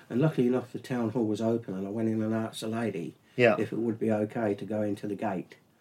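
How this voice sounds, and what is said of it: English accent, not Australian. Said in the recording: “she knew, obviously, by my accent, that I wasn't Australian. ... that you were a pomp.”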